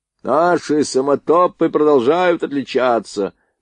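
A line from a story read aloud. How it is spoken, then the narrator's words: Loud, slightly hoarse bass. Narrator (Russian): проговорил он громко, чуть хриповатым басом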